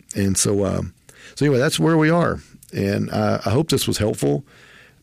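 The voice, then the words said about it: Southeast Texas twang. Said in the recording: “my Southeast Texas twang”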